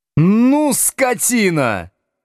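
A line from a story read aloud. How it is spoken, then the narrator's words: Sudden shout. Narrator (Russian): вдруг закричал Слушкин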